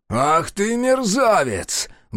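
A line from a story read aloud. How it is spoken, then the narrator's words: Roaring. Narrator (Russian): взревел он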